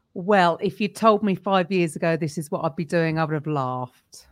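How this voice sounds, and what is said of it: British London accent. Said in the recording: “if you're not sure about this odd accent, I'm in London, so I'm over here in the UK”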